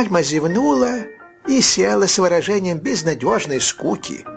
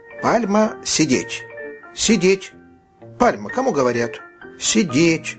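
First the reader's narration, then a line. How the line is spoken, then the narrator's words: Boy's stern voice. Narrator (Russian): мальчик строгим голосом сказал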